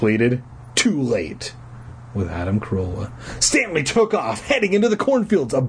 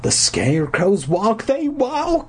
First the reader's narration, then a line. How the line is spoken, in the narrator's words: he cried